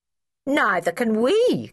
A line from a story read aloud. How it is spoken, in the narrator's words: cried all the Brown children